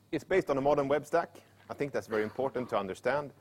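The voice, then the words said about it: Speaking very fast. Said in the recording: “I'm talking very fast because I only have 45 minutes and 342 slides.”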